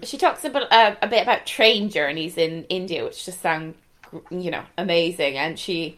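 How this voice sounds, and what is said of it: Irish Galway accent. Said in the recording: “my Galway accent”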